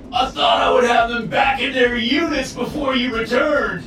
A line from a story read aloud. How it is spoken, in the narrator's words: he howled